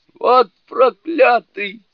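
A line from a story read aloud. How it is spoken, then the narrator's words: Frightened yell. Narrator (Russian): завопил Джубадзе, испуганно вскочив на ноги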